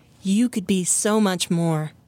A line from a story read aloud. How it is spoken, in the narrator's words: Maya says, her voice full of comfort and wisdom